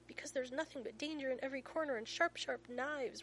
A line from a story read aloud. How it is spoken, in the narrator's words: Rodney moans